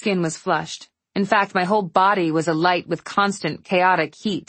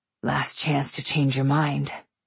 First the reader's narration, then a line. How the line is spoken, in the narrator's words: Breathing heavily, his face but an inch from mine, he said hoarsely